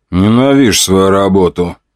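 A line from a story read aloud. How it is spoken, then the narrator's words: Grumbling young man. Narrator (Russian): ворчал парень лет 20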